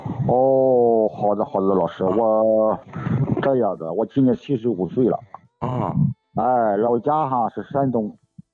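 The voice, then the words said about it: Shandong regional Chinese accent. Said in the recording (Chinese): “听得出来有山东口音。”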